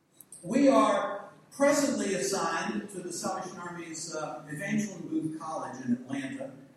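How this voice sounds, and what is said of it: Southern American accent. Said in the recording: “I do apologize right up front for my accent ... translate Southern”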